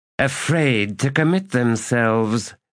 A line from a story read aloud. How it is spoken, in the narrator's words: the errant said, sneering